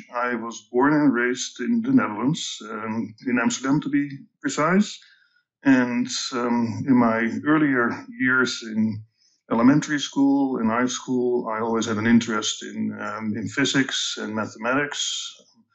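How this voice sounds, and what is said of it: Dutch accent. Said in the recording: “my accent is Dutch”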